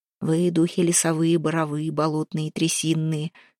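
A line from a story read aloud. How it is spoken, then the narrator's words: Muttering. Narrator (Russian): бормотал он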